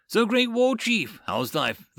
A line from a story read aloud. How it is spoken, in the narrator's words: the guard jeered